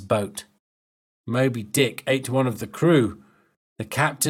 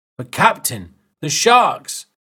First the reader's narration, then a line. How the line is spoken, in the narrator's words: the crew shouted